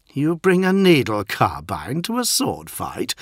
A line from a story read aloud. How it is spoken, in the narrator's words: sneered Lucius